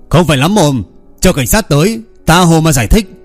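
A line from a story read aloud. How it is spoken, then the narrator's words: Loud angry bark. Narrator (Vietnamese): Minh Lão Nghiêu lại quát lớn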